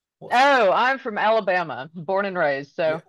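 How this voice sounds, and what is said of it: Mild Southern US accent. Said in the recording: “You might could tell from the accent a little bit. It's not really thick”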